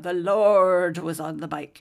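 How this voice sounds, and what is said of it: Put-on Welsh accent. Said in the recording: “I probably didn't say it with the Welsh accent, but I'm saying it to you now.”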